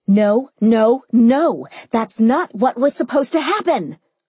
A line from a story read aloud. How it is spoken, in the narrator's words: I yelled, stamping my foot